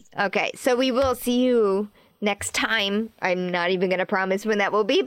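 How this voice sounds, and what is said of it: Voice an octave lower than usual. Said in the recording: “Still feeling a little bit of long COVID, as you can hear from the octave lower that my voice is”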